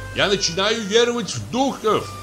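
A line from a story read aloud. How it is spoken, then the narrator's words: Shouted. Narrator (Russian): крикнул он мне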